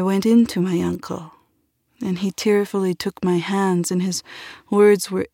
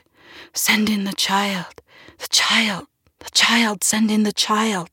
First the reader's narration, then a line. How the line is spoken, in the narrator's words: the relatives in an anxious little huddle, they whispered